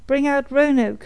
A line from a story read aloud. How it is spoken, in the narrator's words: the trooper spoke, when he cried aloud